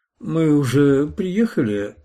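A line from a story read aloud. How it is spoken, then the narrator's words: Sleepy question. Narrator (Russian): сонно спросила она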